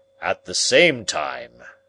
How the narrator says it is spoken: said Challenger, his great voice booming strangely amid the silence

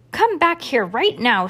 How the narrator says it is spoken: shouted

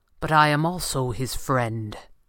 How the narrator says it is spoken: Fenwick said coldly

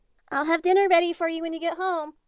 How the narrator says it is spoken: she called out to him

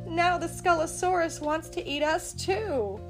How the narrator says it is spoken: Piglet sobbed

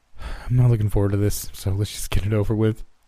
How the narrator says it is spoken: Tanner said nervously

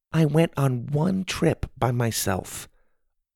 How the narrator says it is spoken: Grandma said softly

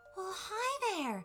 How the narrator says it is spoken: Allison said softly as not to frighten the creature

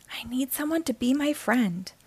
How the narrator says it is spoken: Lilo whispered

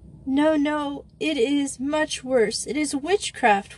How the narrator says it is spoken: wailed Bette

